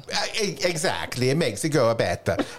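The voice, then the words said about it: Poor put-on Italian accent. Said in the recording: “You don't have to cook in an Italian accent though... that's a very poor accent.”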